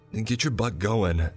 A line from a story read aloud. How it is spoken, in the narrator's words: Jacob cried